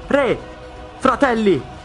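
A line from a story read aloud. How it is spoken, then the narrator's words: Shouting. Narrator (Italian): grida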